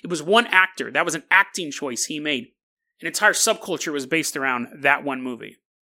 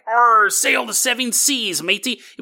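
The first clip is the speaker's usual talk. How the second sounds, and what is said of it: Stereotypical pirate accent. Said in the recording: “The whole pirate accent, comes from one movie”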